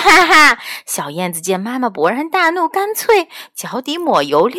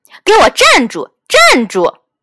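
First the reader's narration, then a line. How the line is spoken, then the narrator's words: Angry loud scolding. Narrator (Chinese): 燕子妈妈发火了，她大声呵斥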